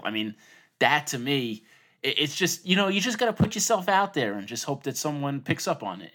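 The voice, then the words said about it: New York accent. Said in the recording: “your New York accent.”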